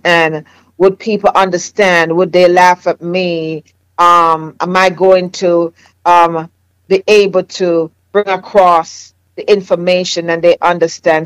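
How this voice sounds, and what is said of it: Jamaican accent. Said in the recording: “my Jamaican accent”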